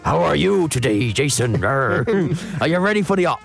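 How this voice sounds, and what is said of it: Put-on West Country pirate accent. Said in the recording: “Talk Like a Pirate Day ... He's not a Somerset farmer. ... Okay, Herefordshire farmer. You sounded like my dad's old boss”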